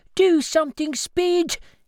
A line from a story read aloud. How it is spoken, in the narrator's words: he yelled to himself